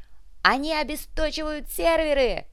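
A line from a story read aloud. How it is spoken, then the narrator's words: Shout. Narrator (Russian): крикнул доктор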